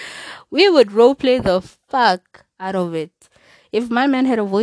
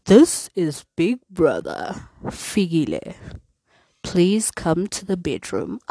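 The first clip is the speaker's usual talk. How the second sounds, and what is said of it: Imitates a TV announcer voice. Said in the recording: “do that Big Brother voice.”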